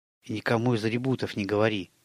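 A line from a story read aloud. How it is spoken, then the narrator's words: Hurried whisper. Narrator (Russian): торопливо шепнул он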